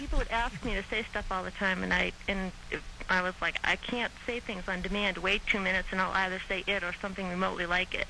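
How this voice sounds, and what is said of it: Boston accent. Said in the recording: “What is the accent I hear? Minnesota? ... I'm from Boston.”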